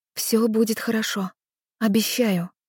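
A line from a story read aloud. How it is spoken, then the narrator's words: Whisper. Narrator (Russian): прошептала я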